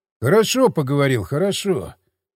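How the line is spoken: Sigh. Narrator (Russian): вздохнул я

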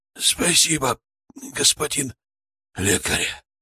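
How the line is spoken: Old man's wheeze. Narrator (Russian): прохрипел старик

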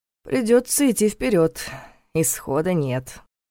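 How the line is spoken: Gloomy declaration. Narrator (Russian): мрачно заявил он

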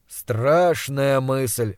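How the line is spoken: Snorting. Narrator (Russian): хмыкнул Пельт

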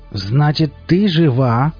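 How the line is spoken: Growl like hungry ghoul. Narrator (Russian): прорычал Валдис голосом голодного вурдалака

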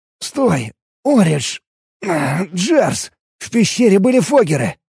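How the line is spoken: Exclamation. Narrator (Russian): воскликнул я

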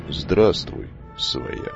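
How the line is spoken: Quiet, slightly hoarse. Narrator (Russian): Негромко и чуть хрипло произнес пришедший

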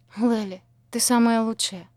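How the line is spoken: Breathless exhale. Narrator (Russian): выдохнула Шанти

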